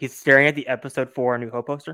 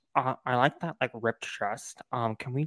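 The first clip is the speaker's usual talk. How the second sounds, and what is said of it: Imitates another person's voice. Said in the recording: “my best George Lucas impression.”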